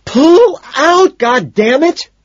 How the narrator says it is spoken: she screams

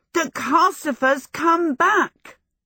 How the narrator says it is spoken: Michael shouted

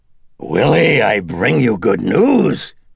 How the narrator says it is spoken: croaked the demon

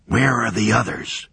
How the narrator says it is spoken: Morton whispered

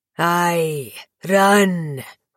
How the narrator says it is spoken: he roared

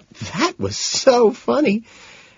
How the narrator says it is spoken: between giggles she lets out

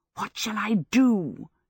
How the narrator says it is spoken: whispered

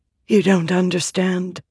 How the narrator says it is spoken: Mother whispered

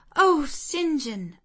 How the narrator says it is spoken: I cried

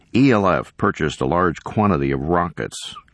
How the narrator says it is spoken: Kenner said

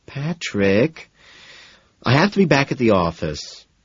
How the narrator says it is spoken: she groans, protesting weakly

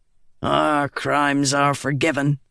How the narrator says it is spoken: Gaz said with a grunt

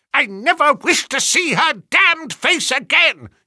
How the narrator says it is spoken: he shrieked

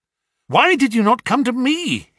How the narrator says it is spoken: he cried

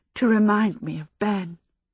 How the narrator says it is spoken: Miss Angorian said huskily

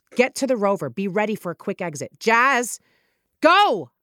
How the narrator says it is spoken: snapped

